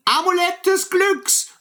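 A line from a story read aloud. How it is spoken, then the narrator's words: Shouted as loud as possible. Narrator (German): so laut wie er nur konnte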